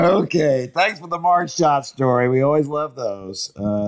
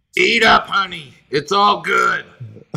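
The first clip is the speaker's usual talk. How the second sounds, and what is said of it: Heavy raspy smoker's voice. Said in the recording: “said with a very heavy smoker's accent”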